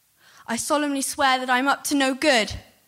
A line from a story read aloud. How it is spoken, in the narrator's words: took a deep breath and I shouted